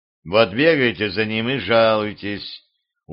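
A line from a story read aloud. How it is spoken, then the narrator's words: Nobleman, weary advice. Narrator (Russian): устало посоветовал дворянин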